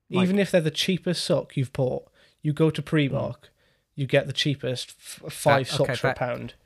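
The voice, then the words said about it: Slight regional accent. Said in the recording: “I've got a bit of an accent.”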